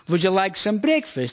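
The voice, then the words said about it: English in a put-on Dutch accent. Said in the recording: “Mum, that's not even Dutch, you're just talking funny ... They don't speak English in a foreign accent as though they were in a war film”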